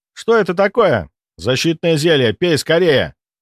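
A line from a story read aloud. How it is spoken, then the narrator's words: Alarmed shout. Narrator (Russian): выкрикнул я, увидев, как в нас полетели целых 5 вспышек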